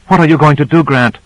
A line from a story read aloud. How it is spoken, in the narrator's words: Duval said excitedly